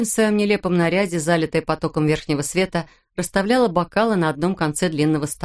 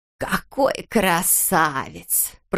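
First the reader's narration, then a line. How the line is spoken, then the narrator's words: Creaky voice. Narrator (Russian): проскрипела она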